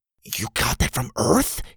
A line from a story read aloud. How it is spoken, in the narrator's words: He whispered